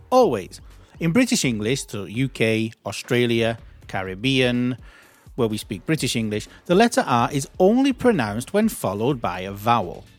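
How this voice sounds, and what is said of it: British English accent. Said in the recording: “my accent, which is British”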